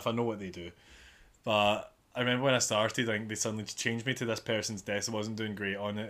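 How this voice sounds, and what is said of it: Mild Glaswegian accent. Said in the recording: “I don't have the strongest of Glaswegian accents”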